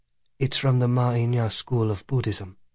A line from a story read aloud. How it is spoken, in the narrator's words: Ananda said